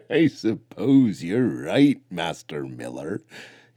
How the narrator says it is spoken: he wheezed mid-chuckle

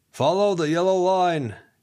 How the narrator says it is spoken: Ken called out after them

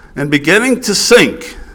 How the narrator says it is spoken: he cried, saying

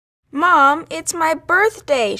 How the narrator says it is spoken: she whined

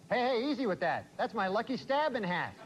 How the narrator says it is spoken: suddenly blurted out

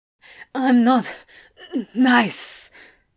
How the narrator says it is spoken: he gasped

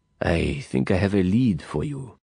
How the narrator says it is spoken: he said softly

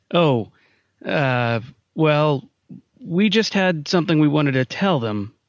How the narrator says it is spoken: Simon's voice faltered

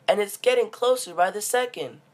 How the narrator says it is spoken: yelped

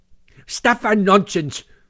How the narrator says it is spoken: said Toad very angrily

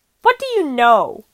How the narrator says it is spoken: the kid snapped

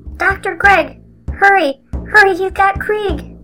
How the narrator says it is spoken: Elderby called out

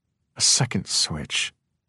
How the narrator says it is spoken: Rhyme said in a soft voice

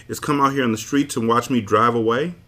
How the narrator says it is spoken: Her laughter rang out merrily

